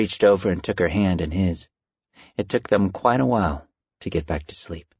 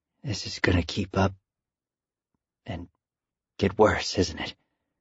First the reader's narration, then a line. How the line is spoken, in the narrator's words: Al ... whispered